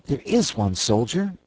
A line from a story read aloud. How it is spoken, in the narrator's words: exclaimed Dorothy